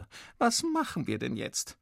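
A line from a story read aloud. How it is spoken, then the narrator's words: Mother wailing. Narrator (German): jammert die Mutter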